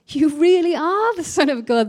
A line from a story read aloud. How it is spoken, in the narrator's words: they exclaimed